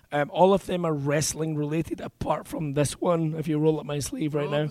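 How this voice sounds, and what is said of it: Hoarse, strained voice. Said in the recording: “I've lost my voice”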